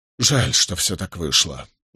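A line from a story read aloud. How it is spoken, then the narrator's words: Sighing. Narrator (Russian): вздохнул он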